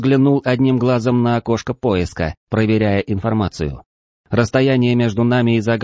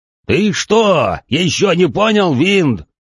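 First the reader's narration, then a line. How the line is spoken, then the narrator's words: Golem shouting. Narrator (Russian): крикнул голем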